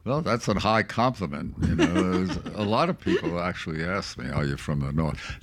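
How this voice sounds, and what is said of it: New York accent. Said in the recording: “Oh, I still think you have a New York accent. ... Yes, he does.”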